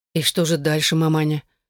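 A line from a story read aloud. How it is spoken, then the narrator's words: Sympathetic, sad. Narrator (Russian): сочувственно и печально спросила Эшлинг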